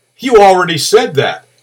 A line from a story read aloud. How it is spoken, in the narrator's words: a deep male voice boomed back, so loud that there was no problem hearing the words